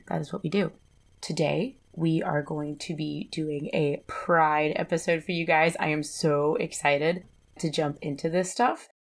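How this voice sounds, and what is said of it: Slightly weird, deeper hoarse voice. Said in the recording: “my voice sounds a little weird. I am getting over a nasty cold, so I still have sort of like this Jennifer Lawrence tenor to my voice ... there's still a little bit of it there”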